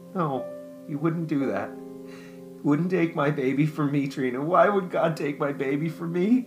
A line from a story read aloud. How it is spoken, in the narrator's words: Jennifer wailed